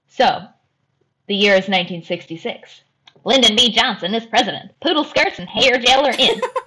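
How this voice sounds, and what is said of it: Attempted transatlantic accent. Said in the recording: “That is my best attempt at a transatlantic accent.”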